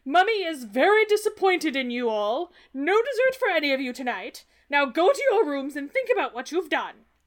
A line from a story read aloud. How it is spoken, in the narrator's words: Dumbledore yelling at them